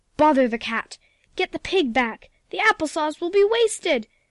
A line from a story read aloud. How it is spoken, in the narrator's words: shrieked the cook